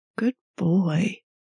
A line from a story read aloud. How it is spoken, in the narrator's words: Minho purrs